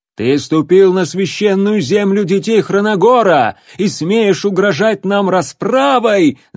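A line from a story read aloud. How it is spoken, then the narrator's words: Shout from crowd. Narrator (Russian): закричал кто-то из толпы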